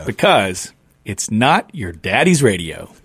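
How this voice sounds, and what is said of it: Put-on radio announcer voice. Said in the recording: “You like my radio voice? That's my radio voice. ... It was an excellent vocal inflection there.”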